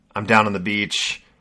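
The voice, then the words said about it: Put-on casual Australian accent. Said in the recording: “Australian accent ... like the California surfer dude ... It feels more casual”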